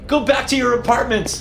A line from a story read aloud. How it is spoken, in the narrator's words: I yelled